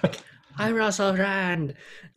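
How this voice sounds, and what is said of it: Screamed British accent impression. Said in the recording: “he's got to do a British accent and scream, and that's Russell Brand. And show your teeth a lot... that's how he speaks. That's how he talks.”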